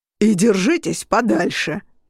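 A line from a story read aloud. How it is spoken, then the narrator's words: Booming from behind. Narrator (Russian): прогремел позади меня Тук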